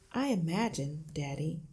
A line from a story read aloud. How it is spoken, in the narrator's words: Matilda said quietly